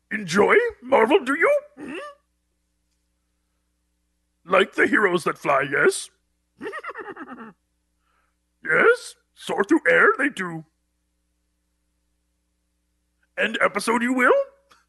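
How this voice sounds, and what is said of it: Yoda-like character voice. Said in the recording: “Thanks, Yoda ... he keeps the facial structure to do this voice ... Voice only lasts so long”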